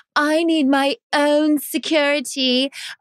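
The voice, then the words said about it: Put-on fake accent imitating someone. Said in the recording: “that's my fake accent like hers”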